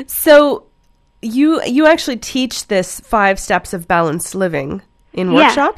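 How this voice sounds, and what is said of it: Congested voice with a cold. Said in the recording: “I've got a cold... I'm coughing”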